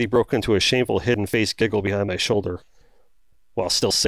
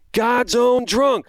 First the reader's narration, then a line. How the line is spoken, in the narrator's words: both of us yelled out during the next song break